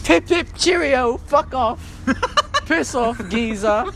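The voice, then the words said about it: Mock British accent. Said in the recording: “You like my British accent? It's fucking real as fuck”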